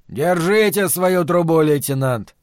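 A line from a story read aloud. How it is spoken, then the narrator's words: Said in an indifferent tone. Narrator (Russian): сказал он Симеоне безразличным тоном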